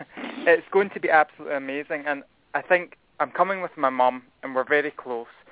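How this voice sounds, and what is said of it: Scottish accent. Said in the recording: “Hopefully everyone can understand me. ... my accent.”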